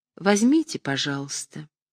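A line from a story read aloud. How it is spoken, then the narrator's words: Gentle. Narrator (Russian): Люба сказала ласково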